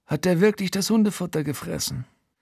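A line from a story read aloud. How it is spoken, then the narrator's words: Quiet but audible. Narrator (German): Frankie sagt leise, aber trotzdem für mich hörbar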